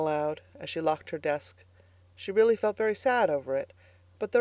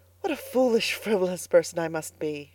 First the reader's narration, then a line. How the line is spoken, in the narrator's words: she sighed